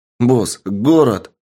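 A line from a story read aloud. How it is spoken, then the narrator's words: Joyful announcement. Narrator (Russian): радостно сообщил разведчик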